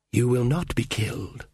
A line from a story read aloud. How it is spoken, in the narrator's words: she whispered